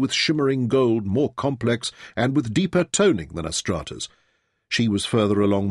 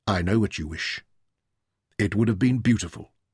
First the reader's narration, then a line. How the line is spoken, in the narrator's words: told her gently